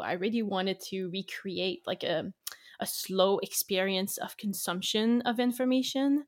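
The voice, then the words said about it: French-Canadian accent in English. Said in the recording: “I'm French-Canadian ... English is my second language. If you find that I have a weird accent or I'm saying words weird, that's quite normal.”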